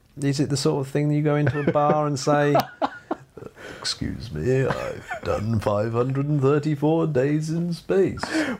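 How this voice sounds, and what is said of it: Imitates another person's voice. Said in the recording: “your Roger Moore impression”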